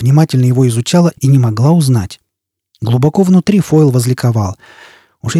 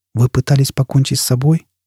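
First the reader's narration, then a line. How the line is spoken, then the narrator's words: Gentle interruption. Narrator (Russian): мягко перебил ее Фойл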